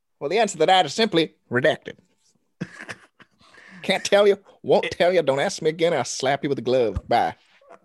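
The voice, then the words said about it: Aggressive imitation of another person's voice. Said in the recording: “he's a bit aggressive and oddly sounds like Jerry Jones, if you listen. ... parody of Jerry Jones. ... Impersonation.”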